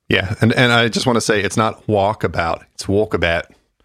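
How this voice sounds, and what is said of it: Mock Australian accent. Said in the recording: “you're really dying to do that Australian accent”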